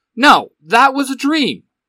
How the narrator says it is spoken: Eric shouts

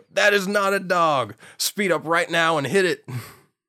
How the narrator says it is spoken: Travis starts yelling back over the radio

